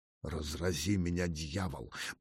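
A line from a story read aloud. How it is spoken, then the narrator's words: Furious mutter. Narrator (Russian): пробормотал Сталин, забыв от ярости назвать себя в третьем лице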